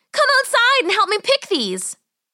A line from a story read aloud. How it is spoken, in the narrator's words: she yelled